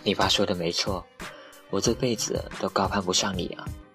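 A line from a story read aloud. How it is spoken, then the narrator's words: Bitter, wry. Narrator (Chinese): 黄瓜苦笑着说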